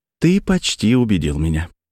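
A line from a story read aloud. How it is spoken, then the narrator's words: Plain. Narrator (Russian): сказала она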